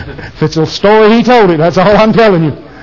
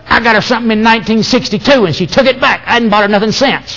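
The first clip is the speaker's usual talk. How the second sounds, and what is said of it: Imitates another person's voice. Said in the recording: “I'm going to do my best Richard imitation. ... Is that pretty close?”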